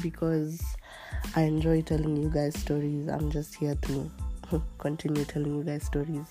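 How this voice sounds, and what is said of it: Slightly weird, unwell-sounding voice. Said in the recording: “as you can hear ... my voice sounds slightly weird because I'm not feeling so well”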